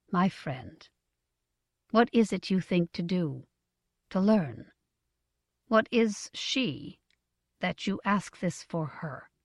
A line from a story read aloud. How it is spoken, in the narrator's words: The changer said quietly, with respect